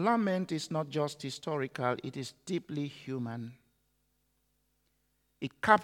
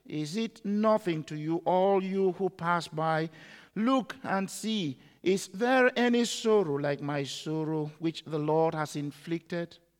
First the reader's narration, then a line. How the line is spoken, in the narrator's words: The pain was so deep, the poet cried